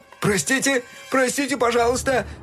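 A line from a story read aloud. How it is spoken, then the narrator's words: Apologetic shouting. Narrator (Russian): кричал разгневанным пешеходом Фил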